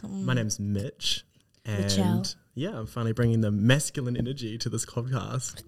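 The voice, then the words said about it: Put-on sexy voice. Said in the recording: “Sexy voice.”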